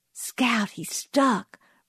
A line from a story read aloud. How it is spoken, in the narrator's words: breathed Jim